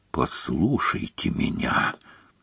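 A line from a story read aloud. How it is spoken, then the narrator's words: Very quiet. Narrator (Russian): сказал Снег так тихо, что Гарри пришлось изо всех сил притиснуть ухо к замочной скважине, чтобы расслышать его слова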